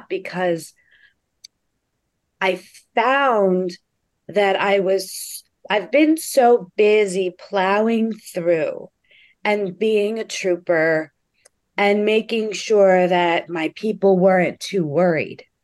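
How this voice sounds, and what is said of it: Choked-up, emotional voice. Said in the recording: “I'm getting a little choked up”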